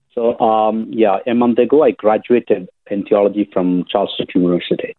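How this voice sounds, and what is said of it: South Indian accent. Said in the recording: “where's your accent yeah. from? ... I'm basically from India, the southern part of India”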